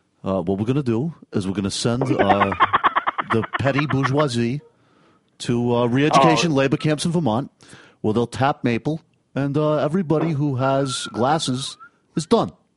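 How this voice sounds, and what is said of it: Bernie Sanders impression. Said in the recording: “Is it Bernie ... That is a great impression.”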